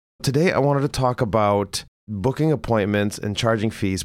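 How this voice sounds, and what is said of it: Rough, slightly hoarse voice. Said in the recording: “my voice sounds a little bit rougher than normal... I've had a little bit of a cough”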